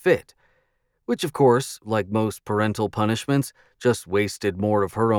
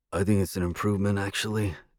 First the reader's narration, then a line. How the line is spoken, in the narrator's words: Thomas muttered to me